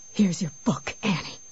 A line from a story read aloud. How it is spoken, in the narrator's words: panted